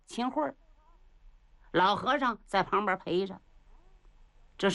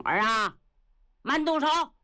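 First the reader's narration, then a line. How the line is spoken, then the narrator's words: Loud shout. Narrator (Chinese): 有人大喊一声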